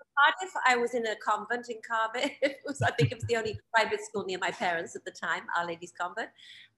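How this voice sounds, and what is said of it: Welsh accent. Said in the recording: “a lovely Welsh accent still”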